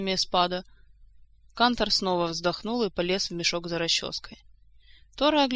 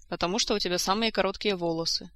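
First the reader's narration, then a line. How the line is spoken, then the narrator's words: Calm explanation. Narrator (Russian): спокойно пояснил Эспада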